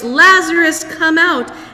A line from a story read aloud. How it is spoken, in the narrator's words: called in a loud voice